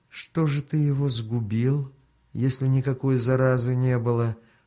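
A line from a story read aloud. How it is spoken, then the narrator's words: Insinuating, falsely soft question. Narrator (Russian): вкрадчиво, нарочито мягким голосом спросил хан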